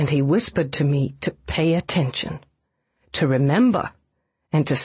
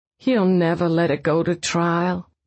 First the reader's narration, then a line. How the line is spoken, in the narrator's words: Catherine said wearily